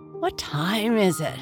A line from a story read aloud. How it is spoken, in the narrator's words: mumbled